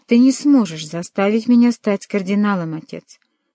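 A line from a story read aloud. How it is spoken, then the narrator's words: Plain. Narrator (Russian): сказал он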